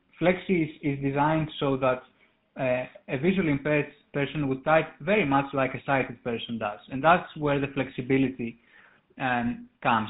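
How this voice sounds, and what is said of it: Greek accent. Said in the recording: “you can hear probably from my accent that I'm Greek in origin”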